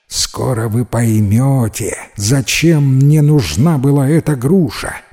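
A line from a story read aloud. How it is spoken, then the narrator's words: Plain, old man. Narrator (Russian): ответил старик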